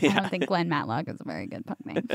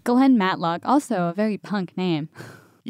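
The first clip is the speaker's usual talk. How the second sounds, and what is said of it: Sarcastic tone. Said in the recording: “I'm being sarcastic”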